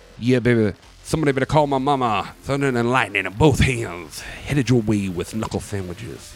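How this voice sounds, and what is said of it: Imitates another person's voice. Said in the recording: “that was my Dusty Rhodes impersonation”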